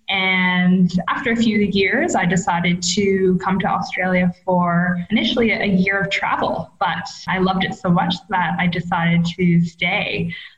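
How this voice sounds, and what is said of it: Canadian accent. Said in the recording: “my funny accent ... I am originally from Canada”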